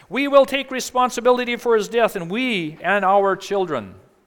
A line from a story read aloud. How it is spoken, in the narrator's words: all the people yelled back